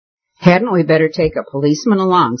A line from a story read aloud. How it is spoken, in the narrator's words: said one of the girls with a nervous laugh